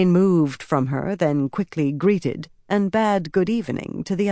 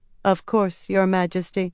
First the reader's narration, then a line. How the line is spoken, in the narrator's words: the girl said, in a flat, almost inhuman voice